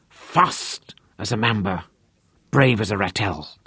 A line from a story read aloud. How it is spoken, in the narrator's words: he hissed in his ear